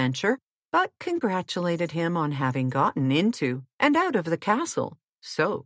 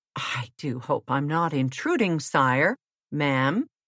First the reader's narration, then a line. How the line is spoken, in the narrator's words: said Puss